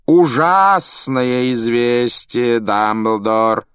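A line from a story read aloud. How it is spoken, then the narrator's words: Theatrical drawl. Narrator (Russian): театральным голосом протянул Малфой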